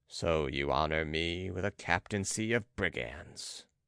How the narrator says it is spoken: sneered Balsamo

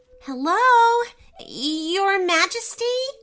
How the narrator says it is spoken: called out

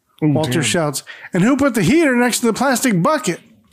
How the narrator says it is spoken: Arthur shouts back

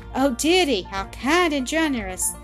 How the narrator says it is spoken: cried Blanche half breathlessly

